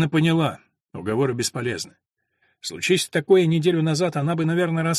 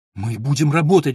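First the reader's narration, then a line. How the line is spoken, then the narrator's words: Pleading. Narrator (Russian): взмолилась Алина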